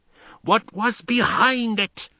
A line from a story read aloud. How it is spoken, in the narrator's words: was almost shrieking